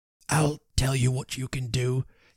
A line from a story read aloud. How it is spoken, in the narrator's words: he said very hoarsely